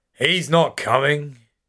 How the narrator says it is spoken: slurs

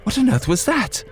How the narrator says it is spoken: exclaimed

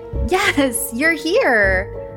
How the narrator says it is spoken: Sandy giggled and said

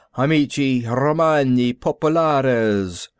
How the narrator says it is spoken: Martin stood tall, spread his arms rather like a high priest, and intoned

